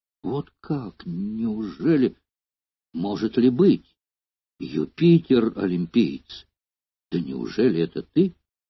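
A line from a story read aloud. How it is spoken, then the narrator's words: Surprised, uncertain exclamation. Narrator (Russian): Он со все возрастающим удивлением неуверенным тоном воскликнул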